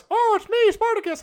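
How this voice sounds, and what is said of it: Mickey Mouse cartoon voice. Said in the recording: “Mickey Mouse. I don't know why I did that voice.”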